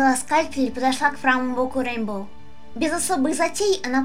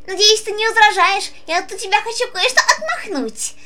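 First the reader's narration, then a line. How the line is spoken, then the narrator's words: Laughing pony. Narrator (Russian): Засмеялась розовая пони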